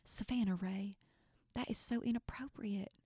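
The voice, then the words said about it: Southern-accented imitation of another voice. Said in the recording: “That was really good. You should go into voice acting ... a really good like Southern accent”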